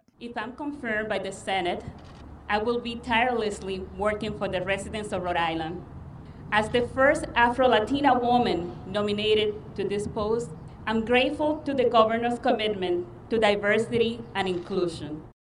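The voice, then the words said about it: Latina-accented English. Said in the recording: “You can just hear in her voice... I speak with an accent”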